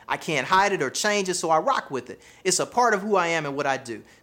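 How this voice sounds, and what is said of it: Southern American accent. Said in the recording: “I have a Southern accent, right? My accent”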